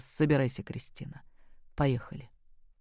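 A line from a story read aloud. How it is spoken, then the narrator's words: Quiet command. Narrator (Russian): скомандовал тихо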